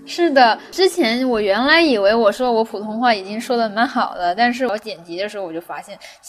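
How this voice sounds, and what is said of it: Mandarin with heavy Cantonese accent. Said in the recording (Chinese): “其实我的广东口音还是很重的，说话的腔调不一样，重音不一样”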